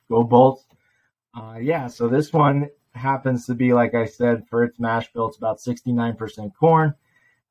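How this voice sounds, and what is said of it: Slightly raspy, hoarse voice. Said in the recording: “sorry about my voice. Went to the Lightning game last night. ... So it's a little raspy.”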